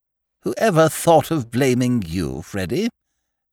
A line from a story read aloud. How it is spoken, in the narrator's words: said the Duchess